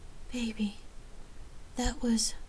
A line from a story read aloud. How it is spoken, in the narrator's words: Lark lay panting uncontrollably in a pleasure coma as she wrapped her arms around Rain and said